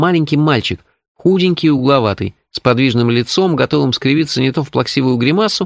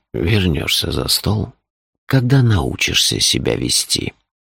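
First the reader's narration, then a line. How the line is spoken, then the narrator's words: Almost gentle. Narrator (Russian): почти ласково сказал он мальчику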